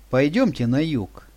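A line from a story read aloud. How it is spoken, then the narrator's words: Plain. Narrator (Russian): сказал Ваня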